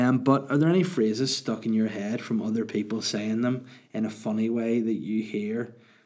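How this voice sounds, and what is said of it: Usual voice. Nothing is said of it.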